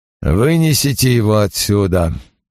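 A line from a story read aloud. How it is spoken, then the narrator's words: Hoarse command. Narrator (Russian): хрипло приказал Пратт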